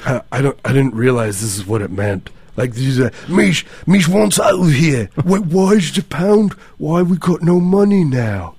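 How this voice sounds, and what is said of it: Put-on British accent. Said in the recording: “That's my British accent. People think I'm British all the time.”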